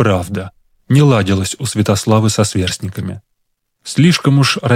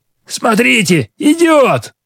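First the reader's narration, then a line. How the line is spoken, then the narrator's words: Bold boy shouting. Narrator (Russian): выкрикнет кто-нибудь из мальчишек, самый смелый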